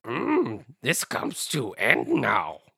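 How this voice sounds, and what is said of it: Bad Yoda impression. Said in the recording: “I said that like Yoda. ... That was bad. That was also very bad. I should not have tried to do a Yoda impression.”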